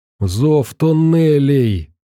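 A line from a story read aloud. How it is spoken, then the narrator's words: Hoarse wheeze. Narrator (Russian): захрипел он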